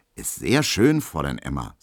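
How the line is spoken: Old waiter, beaming. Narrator (German): sagt Herr Höhne, und sein altes, glattes Kellnergesicht glänzt dabei

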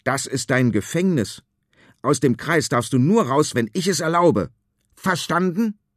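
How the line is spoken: Shouting. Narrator (German): schreit

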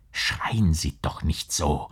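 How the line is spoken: Whispered. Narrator (German): flüsterte der Gerichtsdiener

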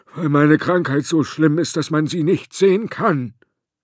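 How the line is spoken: Groaning. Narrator (German): stöhnte Ladislaus der Letzte

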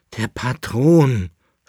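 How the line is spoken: Groaning. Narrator (German): stöhnte der Leibnitzer

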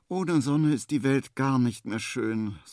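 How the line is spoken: Sighing. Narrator (German): seufzt Henry

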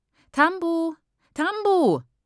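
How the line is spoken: A voice calling. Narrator (German): ruft eine Stimme

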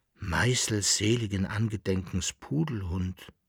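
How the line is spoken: Dismayed murmur. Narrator (German): murmelte der Berl-Landfahrer betroffen

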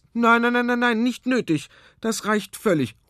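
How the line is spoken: Calling. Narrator (German): ruft Frau Lottermoser

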